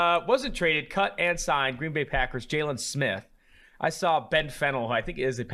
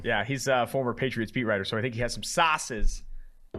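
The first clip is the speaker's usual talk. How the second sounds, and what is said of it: Put-on Boston accent. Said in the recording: “I don't know why I made that accent... Was that Boston? ... I felt like I'm in Southie.”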